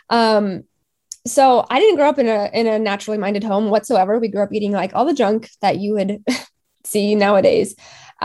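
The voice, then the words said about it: Slightly congested voice. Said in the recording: “excuse my voice too, because I have been sick this week. So I'm kind of like a little bit congested”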